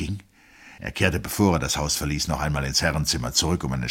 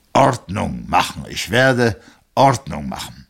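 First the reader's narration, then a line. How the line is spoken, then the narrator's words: Said aloud. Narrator (German): Er sagte laut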